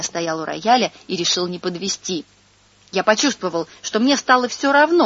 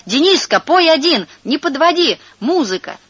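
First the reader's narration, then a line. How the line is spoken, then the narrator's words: Shouting. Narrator (Russian): Она кричала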